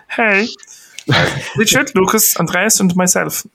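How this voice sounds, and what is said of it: Impression of a friend's accent. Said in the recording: “I'll do my Finn accent ... And that was my Finn impression.”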